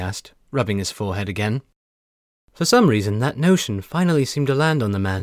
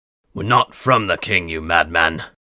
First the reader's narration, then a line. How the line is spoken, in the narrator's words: Voslo snarled